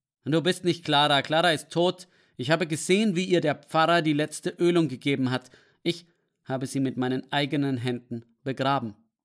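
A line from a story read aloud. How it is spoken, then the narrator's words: Angry. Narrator (German): sagte er wütend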